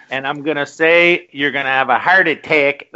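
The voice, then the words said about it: Put-on Chicago accent. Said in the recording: “That's my Chicago accent.”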